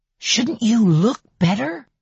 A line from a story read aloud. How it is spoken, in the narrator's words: he asks in a loud whisper